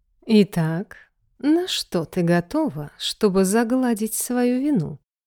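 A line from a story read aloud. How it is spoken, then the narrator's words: Purring. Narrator (Russian): Промурлыкал он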